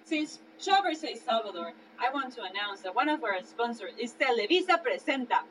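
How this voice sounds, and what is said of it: Salvadorian Spanish accent. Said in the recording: “my Salvadorian accent”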